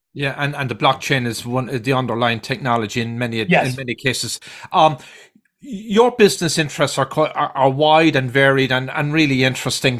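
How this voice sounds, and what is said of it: Irish accent. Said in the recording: “my accent, I guess, earlier, being from Ireland”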